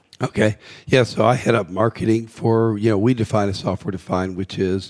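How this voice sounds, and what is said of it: Scratchy voice. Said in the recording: “I've got a little cold here, so my voice is scratchy.”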